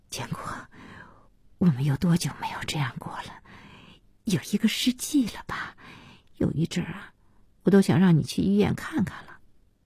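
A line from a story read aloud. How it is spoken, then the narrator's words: Murmured, moved to tears. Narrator (Chinese): 小西被这笑感动得要哭 嘴里喃喃的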